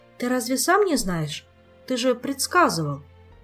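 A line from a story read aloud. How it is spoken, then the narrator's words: Uncertain. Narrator (Russian): Неуверенно произнесла Эльвира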